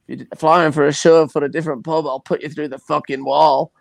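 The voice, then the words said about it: Put-on accent quoting someone. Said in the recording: “I don't know how good an accent that was.”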